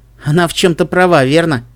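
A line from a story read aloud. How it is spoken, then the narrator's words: Laughing reply. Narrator (Russian): Ассо рассмеялся в ответ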